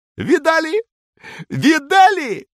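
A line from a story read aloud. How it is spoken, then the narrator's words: Joyful shout. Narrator (Russian): радостно кричит Выбегалла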